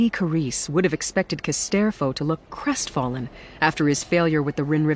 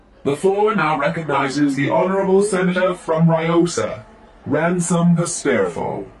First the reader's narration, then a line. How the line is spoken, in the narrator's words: One of the mediator droids intoned